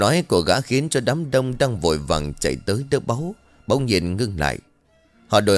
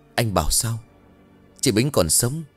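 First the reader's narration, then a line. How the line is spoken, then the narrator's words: Trembling speech. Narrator (Vietnamese): Thầy ban nghe xong run rẩy rồi bảo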